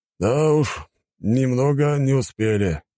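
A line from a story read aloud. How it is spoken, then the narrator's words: Sighing. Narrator (Russian): вздохнул командующий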